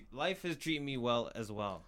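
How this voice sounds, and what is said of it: Speaking loudly, slightly yelling. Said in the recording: “Why are you yelling at me, dog? ... Yeah, a little bit. You're yelling at me.”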